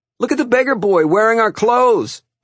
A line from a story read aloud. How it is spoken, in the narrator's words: one of the boys shouted to some others in the schoolyard